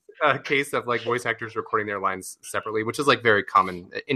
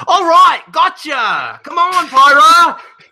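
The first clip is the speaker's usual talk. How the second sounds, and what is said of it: Imitates a video game character's voice. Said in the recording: “you do a good Rex impression... That's pretty good. That's all right.”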